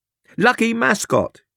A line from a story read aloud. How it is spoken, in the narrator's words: he shouted